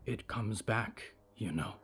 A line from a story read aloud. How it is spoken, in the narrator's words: Violet whispered, trying to explain something terrible to a child as gently as she could